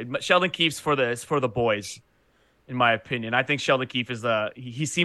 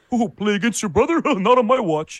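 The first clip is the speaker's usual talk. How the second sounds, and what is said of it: Imitates another person's voice, badly. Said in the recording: “another terrible impression”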